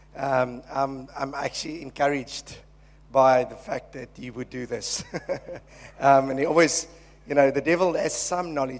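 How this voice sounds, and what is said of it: Croaky voice. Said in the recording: “my voice is a little bit croaky this morning”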